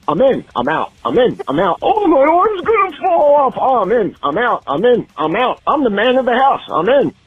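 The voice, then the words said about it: Imitates another person's voice. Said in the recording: “Quick impersonation for you guys. Guess who I am?”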